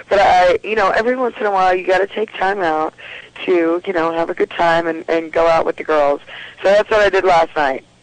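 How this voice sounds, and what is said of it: Hoarse, strained voice. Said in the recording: “I am noticing that I'm losing my voice because I've been working a lot.”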